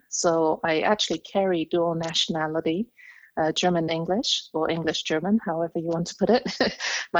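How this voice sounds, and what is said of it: Speaks with a foreign accent. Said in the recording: “you can already tell by my accent ... I immigrated to the US ... I am half English, half German”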